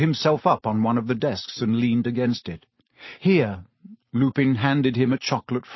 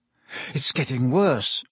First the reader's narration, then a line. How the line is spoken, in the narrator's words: Harry muttered